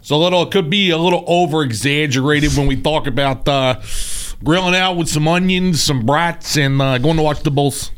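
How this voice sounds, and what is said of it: Exaggerated Chicago accent. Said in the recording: “Do you do a good Chicago accent? ... I don't know if it's good, but it's like a, it's based off of the SNL bear sketch”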